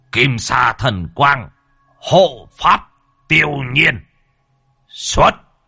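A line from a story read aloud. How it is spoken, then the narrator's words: Old man chanting, shouting. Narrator (Vietnamese): Lão lẩm bẩm đọc chú mà quát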